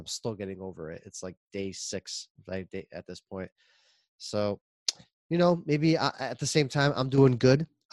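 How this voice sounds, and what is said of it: Sick-sounding voice. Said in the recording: “I'm sick. And you might even hear it in my voice.”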